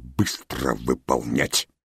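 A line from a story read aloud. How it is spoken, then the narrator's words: Angry hiss. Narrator (Russian): он зло прошипел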